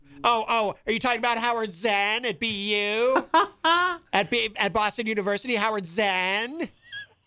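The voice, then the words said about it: Enthusiastic, inaccurate imitation of another person. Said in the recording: “my impression of your impression of John Hopwood ... what you lack for in accuracy, you make up for enthusiasm”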